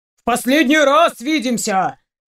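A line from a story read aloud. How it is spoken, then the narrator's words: Barking roar. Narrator (Russian): рявкнул дядя Щук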